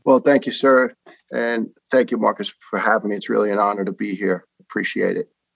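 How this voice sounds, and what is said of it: New York or New Jersey accent. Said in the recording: “it's not going to be hard to pick up pick up my man's accent. from one arguably the most patriotic cities... people from Jersey and New York”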